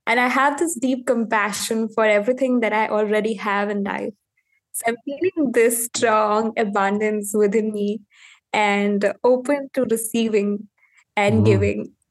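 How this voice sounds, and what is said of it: Indian-accented English. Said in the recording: “your beautiful accent ... I am from India”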